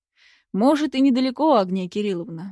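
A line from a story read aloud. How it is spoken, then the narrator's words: Sighing. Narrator (Russian): вздохнул Губанов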